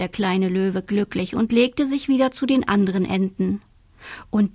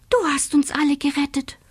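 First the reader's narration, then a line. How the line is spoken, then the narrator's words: Whispered. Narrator (German): flüsterte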